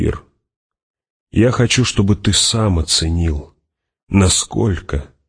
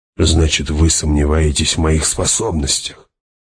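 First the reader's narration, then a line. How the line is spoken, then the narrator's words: Sighing. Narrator (Russian): Она вздохнула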